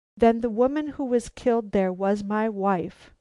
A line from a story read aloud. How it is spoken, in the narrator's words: he cried